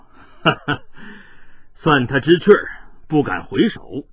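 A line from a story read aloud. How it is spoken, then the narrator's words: Laughing. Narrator (Chinese): 黑星天笑道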